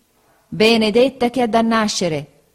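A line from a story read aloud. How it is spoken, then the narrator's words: Woman exclaiming. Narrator (Italian): esclamò la signora Bezze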